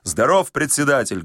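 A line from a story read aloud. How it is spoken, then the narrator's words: Loud bark. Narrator (Russian): гаркнул новоприбывший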